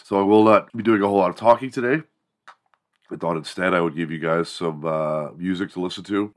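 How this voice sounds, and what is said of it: Sick-sounding voice. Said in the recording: “I am extremely sick. I am ill... as you could probably tell from my voice.”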